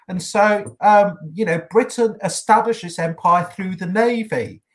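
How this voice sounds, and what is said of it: British accent. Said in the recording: “Imperials were played by British guys yeah, and so you can tell by my accent”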